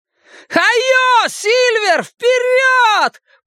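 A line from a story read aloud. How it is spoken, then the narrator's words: Full-voice shout. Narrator (Russian): прокричал Билл во весь голос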